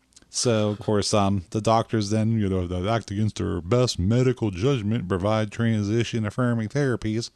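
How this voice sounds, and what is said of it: Put-on Southern accent. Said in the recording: “I'm getting the Southern accent all of a sudden.”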